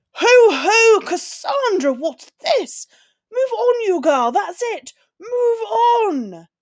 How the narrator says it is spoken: he shouted

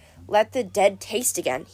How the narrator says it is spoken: he murmured

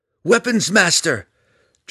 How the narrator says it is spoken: Drizzt cried

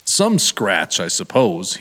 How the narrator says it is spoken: he said

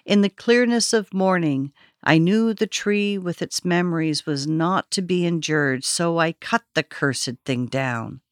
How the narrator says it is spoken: As if continuing after a slight interruption, he said evenly

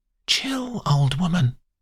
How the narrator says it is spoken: whispers the girl

